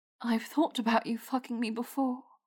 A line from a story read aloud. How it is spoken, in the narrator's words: she said softly